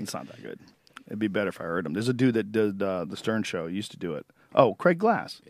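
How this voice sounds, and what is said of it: Usual voice. Nothing is said of it.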